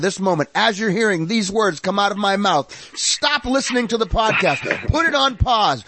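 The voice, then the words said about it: Mock public radio fundraiser voice. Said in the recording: “my fundraiser voice... my NPR voice”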